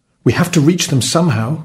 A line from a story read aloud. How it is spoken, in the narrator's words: cried the merchant